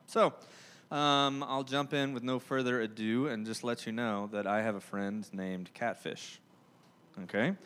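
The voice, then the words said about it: Thick Southern US drawl. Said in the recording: “I'm from Georgia. If you couldn't tell by my, you know, thick southern drawl or the fact that I love the word y'all”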